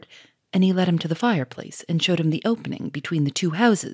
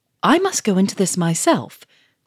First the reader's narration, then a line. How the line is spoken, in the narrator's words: cried Monsieur Fomore in wild excitement